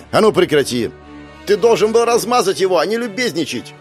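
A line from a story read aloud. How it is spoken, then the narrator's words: Young woman shouting. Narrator (Russian): Выкрикнула одна из девушек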